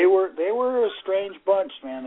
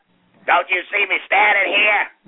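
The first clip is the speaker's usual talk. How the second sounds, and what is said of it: Impression of Charlie Smith. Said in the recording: “best Charlie Smith imitation”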